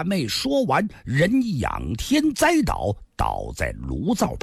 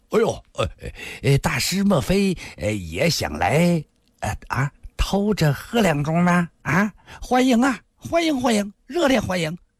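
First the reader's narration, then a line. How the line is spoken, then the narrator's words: Tipsy, laughing greeting. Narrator (Chinese): 两位大师傅已经有了两分酒意，笑着打着招呼说道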